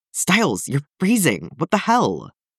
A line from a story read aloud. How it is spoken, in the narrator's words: he hisses